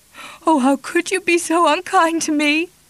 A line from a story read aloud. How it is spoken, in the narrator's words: She sobbed